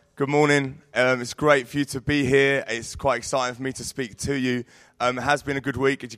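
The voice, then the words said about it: Croaky hoarse voice. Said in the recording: “my voice is quite croaky”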